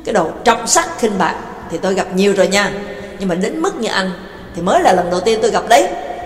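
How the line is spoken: Furious scolding shout. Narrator (Vietnamese): Tức tối quát miệng ra mắng

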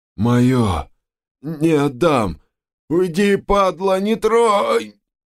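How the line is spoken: Male rasping. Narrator (Russian): он прохрипел

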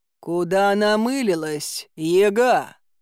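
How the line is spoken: Menacing deep bass. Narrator (Russian): грозно пробасил Илья Муромец

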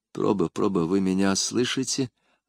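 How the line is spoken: Careful whisper. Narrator (Russian): осторожно прошептал Езон

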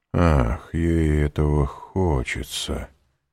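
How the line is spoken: Ominous tone. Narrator (Russian): сказал Вильфор зловещим тоном

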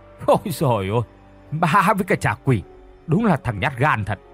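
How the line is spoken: Mocking laughter. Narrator (Vietnamese): Tên Hùng cười phá lên mỉa mai

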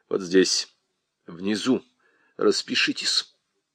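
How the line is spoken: Quiet. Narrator (Russian): сказал тихо

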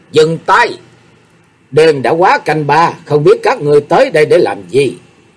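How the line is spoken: Commanding, authoritative shout. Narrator (Vietnamese): Tiếng quát hàm chứa một uy lực khó mà cưỡng lại

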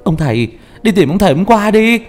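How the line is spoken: Voice crying from crowd. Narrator (Vietnamese): có người kêu lên trong đám đông

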